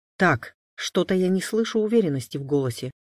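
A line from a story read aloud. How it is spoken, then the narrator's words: Stern fatherly rebuke. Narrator (Russian): строго одернул двойняшек отец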